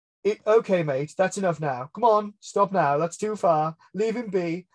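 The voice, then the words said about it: Put-on very English accent. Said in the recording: “he's like really, really English ... can I do this kind of accent?”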